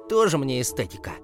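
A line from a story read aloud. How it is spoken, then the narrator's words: Snorting. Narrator (Russian): фыркнул Артем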